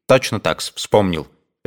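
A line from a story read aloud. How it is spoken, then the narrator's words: Resolute voice. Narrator (Russian): решительным голосом отвечал Евсей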